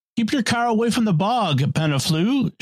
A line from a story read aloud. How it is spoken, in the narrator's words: shouted Jacques Potefay